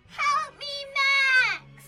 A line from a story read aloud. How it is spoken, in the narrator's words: She screamed